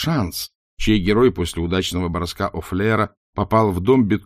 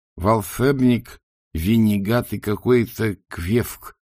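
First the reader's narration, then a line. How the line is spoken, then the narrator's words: Lisping through fangs. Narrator (Russian): прошепелявил бог-крокодил Афлер, которому, как обычно, мешали клыки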